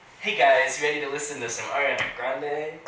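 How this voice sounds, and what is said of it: Imitates another person's voice. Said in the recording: “her impression”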